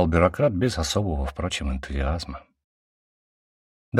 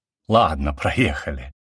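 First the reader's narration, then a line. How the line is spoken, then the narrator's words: Chuckling. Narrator (Russian): я хохотнул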